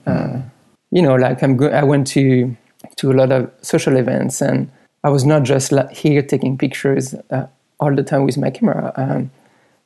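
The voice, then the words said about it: Strong French accent. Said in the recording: “being French and having a strong accent”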